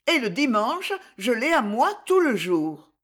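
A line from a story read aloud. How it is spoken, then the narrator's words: Brisk, lively reply. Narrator (French): répondit Louise d'un ton vif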